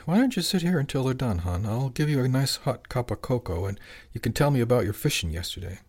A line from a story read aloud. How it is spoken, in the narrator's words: Rosie said softly